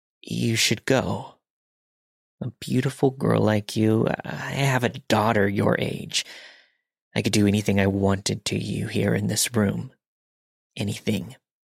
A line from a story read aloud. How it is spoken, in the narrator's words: He continued, still mumbling